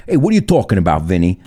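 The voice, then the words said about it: Put-on Sopranos-style mobster accent. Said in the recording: “How do you translate The Sopranos attitude? ... Accent.”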